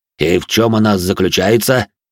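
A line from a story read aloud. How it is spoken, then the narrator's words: Deep bass voice. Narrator (Russian): пробасил де Журиньи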